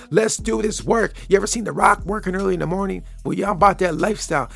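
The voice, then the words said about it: Deep, raspy morning voice. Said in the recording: “you probably can hear it in the voice, the little raspy morning voice ... I got the morning voice ... that deeper, raspy morning voice”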